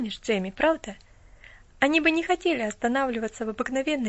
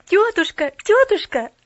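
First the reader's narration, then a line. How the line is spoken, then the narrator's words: Joyful babbling. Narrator (Russian): радостно залепетала она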